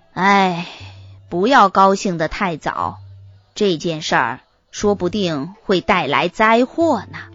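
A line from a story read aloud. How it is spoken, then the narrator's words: Serious, grave. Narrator (Chinese): 塞翁……表情严肃的说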